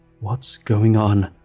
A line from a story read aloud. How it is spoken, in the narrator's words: I wheezed